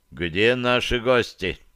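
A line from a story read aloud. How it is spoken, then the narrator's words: Demanding question. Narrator (Russian): требовательно спросил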